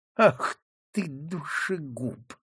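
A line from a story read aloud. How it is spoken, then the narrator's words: Hissing. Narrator (Russian): прошипел он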